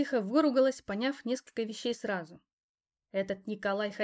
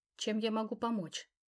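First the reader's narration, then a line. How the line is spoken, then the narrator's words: Quiet. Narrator (Russian): тихо спросила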